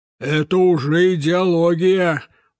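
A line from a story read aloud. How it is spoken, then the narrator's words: Gloomy man. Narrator (Russian): мрачно насупив брови, говорил партийный дядя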